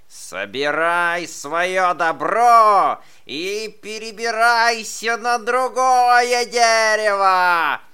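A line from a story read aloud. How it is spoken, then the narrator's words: Shouting badger. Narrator (Russian): закричал барсук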